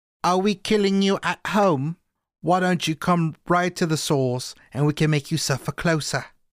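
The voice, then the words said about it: Poor put-on English accent. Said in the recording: “That's a terrible English accent.”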